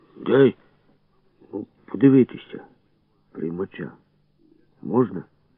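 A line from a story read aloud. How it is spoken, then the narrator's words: Hoarse, embarrassed, after cough. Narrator (Ukrainian): Кукурузо кахикнув і, насупившись, щоб приховати ніяковість, сказав хрипло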